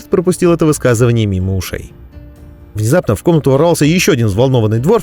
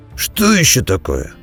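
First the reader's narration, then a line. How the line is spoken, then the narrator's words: Grumbling. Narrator (Russian): проворчал Бреннер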